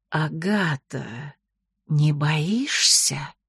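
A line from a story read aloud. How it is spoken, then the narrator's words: Hissing. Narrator (Russian): Нагайна прошипела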